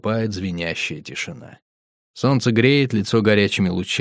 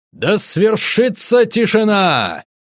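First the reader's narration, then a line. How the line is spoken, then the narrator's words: Host shouting loudly. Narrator (Russian): Ведущий громко кричит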